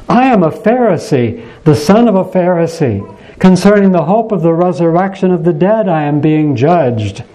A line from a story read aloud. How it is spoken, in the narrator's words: Paul cried out before the council